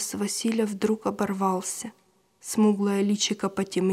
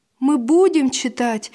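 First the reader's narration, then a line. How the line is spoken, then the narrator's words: Joyful promise. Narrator (Russian): радостно пообещал Василь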